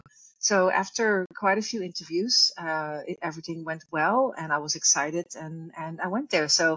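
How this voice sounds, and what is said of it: Non-American foreign accent. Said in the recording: “I have an accent, so I'm not from America.”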